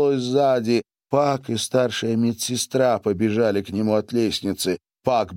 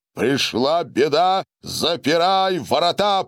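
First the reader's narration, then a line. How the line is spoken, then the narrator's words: Roared. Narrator (Russian): проревел Гарин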